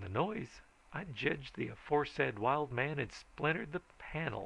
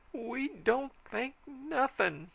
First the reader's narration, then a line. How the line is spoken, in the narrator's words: wailed the sheriff